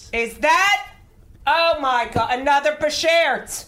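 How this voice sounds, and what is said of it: Loud, excited yelling. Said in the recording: “If you don't stop yelling, I have to open a window... I get excited when I'm around you.”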